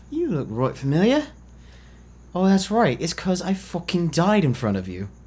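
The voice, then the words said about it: Put-on accent. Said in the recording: “What's with the accent? ... You just love that fucking accent.”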